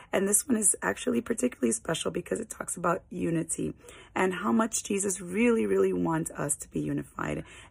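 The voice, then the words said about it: Weak voice recovering from cold. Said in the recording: “my voice is still not completely back yet. I am still healing from the cold I was fighting last week”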